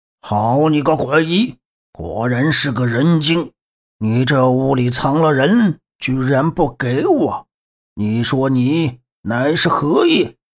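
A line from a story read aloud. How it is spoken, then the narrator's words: Furious outburst. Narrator (Chinese): 鬼将 勃然大怒道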